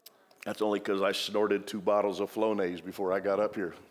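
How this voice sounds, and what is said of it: Slightly nasal, congested voice. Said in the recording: “Do I sound a bit nasally?”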